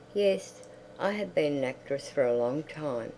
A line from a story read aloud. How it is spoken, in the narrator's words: said gently